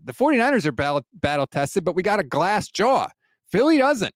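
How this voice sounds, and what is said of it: New York-sounding accent. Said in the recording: “I still don't know if you said jaw or jar um, because of your accent that you use there ... sounded like a New York accent”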